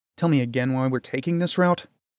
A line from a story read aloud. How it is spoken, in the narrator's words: muttered with annoyance